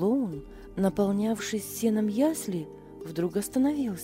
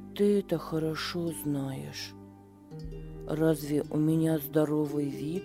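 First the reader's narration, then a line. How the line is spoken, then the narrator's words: Calm. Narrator (Russian): спокойно ответил Беппо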